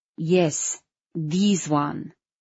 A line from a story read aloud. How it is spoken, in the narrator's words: she said firmly